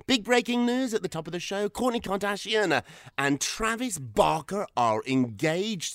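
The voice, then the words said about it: British accent. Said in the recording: “this ridiculous accent ... the British way of saying things ... your British accent”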